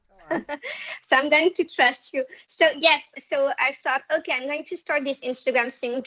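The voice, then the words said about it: French accent. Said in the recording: “your accent is a part of the whole vibe ... how hot the French accent is ... Guys are drooling over your accent.”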